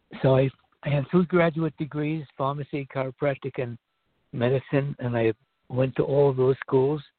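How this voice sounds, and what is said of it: Strained, failing hoarse voice. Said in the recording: “I'm losing my voice.”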